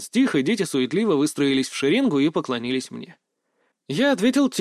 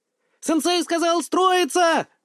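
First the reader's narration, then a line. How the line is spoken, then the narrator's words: Joyful yell. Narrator (Russian): Радостно завопил он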